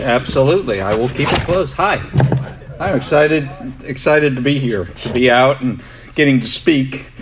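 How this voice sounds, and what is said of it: New York accent. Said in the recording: “I didn't grow up here. Might be able to tell from my accent. I moved from New York”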